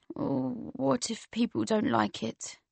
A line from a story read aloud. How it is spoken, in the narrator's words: He said, his voice only just audible